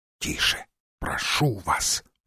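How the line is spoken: Whispered. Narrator (Russian): прошептал он

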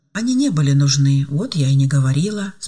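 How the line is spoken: Answered calmly. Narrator (Russian): спокойно ответила Ева

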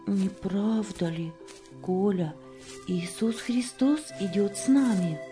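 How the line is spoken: Whispering. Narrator (Russian): шептала

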